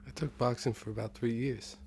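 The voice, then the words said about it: Put-on Italian accent. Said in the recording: “I'm doing the ... Italian. ... It's hard to take you seriously with that accent.”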